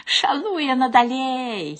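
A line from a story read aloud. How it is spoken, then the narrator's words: Giggling. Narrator (Belarusian): хіхікае Хвядора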